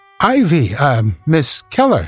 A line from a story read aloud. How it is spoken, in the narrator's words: he exclaimed